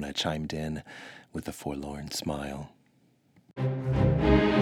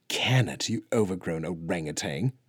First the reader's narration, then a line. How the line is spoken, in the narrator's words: Freya spat back